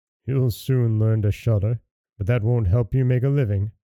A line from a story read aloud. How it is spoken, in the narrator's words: The father sighed and answered him